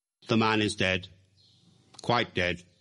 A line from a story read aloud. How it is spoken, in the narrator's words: said the director gravely